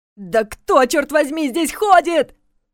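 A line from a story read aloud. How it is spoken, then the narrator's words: Nervous desperate shout. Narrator (Russian): выкрикнул он нервно, отчаянно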